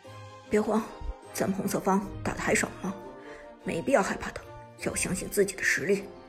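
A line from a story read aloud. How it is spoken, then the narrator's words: Low encouraging voice. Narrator (Chinese): 苏哲也低声鼓励大家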